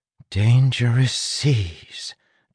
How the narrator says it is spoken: Tress whispered

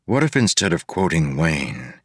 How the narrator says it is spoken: he said softly

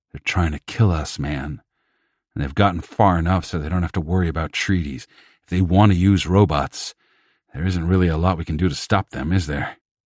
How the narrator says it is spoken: Agreeing mutters went up

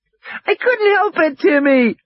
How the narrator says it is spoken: Lex shrieked miserably

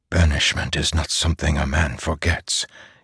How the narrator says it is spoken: he whispered

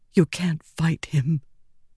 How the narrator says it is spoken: Wendell whispered

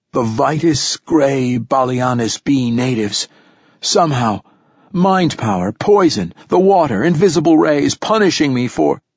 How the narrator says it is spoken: moaned again

